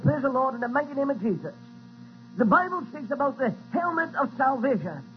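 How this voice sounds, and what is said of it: Noticeable accent. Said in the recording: “I don't know if you have a little bit of problem with my accent”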